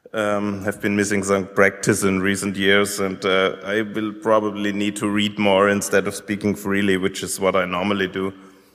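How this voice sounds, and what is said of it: German-accented English. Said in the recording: “my probably somewhat rough English and German accent.”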